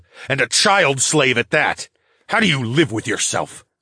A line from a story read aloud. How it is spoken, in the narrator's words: I snarled